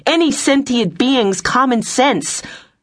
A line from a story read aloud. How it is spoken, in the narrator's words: shouted